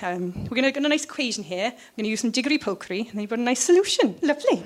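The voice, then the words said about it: Put-on Welsh accent. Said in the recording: “that was a Welsh accent ... very Welsh”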